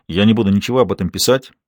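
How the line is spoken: Hurried addition. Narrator (Russian): торопливо добавил он

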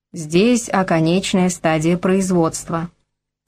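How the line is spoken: Slightly muffled bass. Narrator (Russian): начал рассказывать он чуть глуховатым басом

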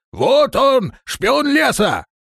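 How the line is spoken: Yelling at top of lungs. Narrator (Russian): Тот самый кряжистый дворф, заорал во все горло

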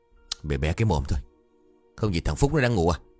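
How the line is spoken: Harsh stressed voice. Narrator (Vietnamese): bà gằn giọng

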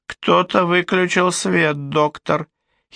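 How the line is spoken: Muffled giggle from under dress. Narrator (Russian): хихикнула она из-под платья

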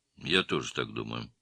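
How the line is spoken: Mumbling. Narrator (Russian): пробормотал Цапов

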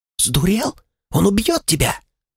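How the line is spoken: Catlike hiss. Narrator (Russian): Словно кошка зашипела Анилаэль

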